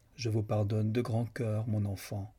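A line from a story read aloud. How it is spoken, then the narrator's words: Plain. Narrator (French): répondit-il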